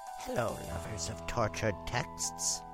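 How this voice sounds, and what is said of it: Whispering. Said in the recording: “Why am I whispering?”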